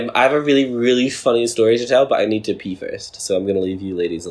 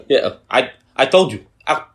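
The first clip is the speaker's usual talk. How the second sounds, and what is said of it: Mock French accent. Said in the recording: “With a French accent.”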